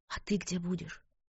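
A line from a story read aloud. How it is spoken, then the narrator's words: Anxious whisper. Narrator (Russian): беспокойно прошептала она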